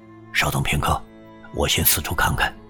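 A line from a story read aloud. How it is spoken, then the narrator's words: Low voice. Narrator (Chinese): 马荣 低声说道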